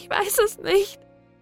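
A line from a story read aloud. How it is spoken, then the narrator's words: Sobbing. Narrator (German): schluchzte sie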